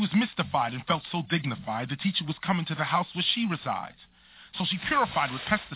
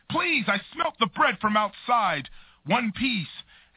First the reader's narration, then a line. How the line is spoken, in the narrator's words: it was a bum who cried